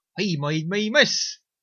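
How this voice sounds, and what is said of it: Failed attempt at a character accent. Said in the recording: “That was not the right accent.”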